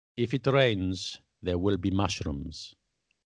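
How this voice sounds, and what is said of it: Put-on Russian accent. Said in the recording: “Shall I do it with a Russian accent?”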